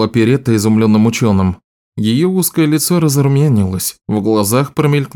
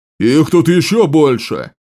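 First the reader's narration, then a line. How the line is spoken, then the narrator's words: Roaring. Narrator (Russian): проревел один из вражеских солдат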